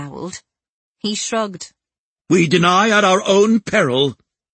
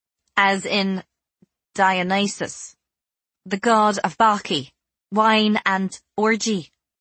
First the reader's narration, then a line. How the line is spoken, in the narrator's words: I said stiffly